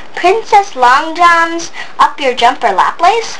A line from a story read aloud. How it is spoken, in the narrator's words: the surgeon exclaimed